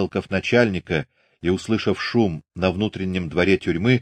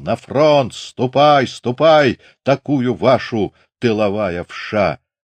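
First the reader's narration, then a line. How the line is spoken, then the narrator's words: Yelling. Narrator (Russian): орал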